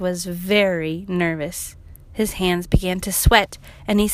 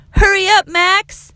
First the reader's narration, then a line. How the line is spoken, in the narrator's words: yelled his friends